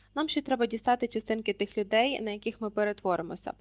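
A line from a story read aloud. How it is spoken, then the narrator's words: Matter-of-fact. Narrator (Ukrainian): промовила буденним тоном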